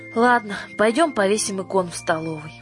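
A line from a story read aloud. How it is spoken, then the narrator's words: Sigh. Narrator (Russian): вздохнула и сказала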